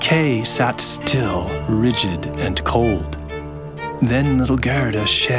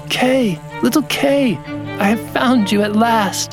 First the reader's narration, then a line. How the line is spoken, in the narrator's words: cried